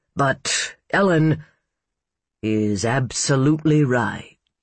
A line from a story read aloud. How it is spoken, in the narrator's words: Jay drawled